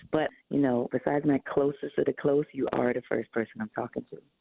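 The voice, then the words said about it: Raspy voice. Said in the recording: “my voice is pretty raspy regardless of the time of day”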